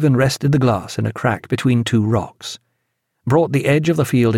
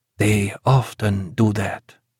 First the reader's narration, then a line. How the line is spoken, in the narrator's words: murmured Eduardo